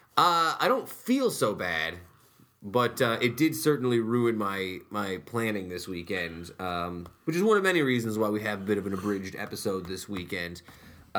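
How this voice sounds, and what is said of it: Sick-sounding voice. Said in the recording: “hear the sickness in my voice... You sound sick.”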